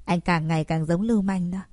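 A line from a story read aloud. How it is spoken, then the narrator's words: Pained mutter. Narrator (Vietnamese): Bạch Nhược Hy đau đớn lẩm bẩm nói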